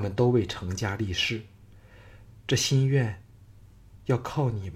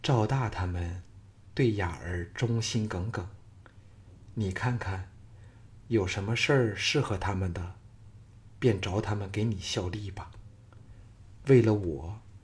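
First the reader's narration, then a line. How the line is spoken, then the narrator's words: Soft voice. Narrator (Chinese): 赵雅柔声说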